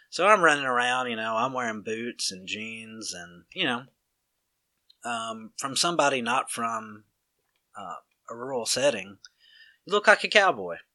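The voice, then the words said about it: Strong rural country accent. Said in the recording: “my accent, I'm sure you can tell ... your accent, man, you just sound so crazy ... are you some kind of cowboy”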